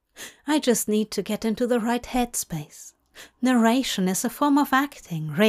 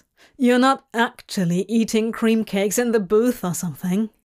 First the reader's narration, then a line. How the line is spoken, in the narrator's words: Aziraphale laughed then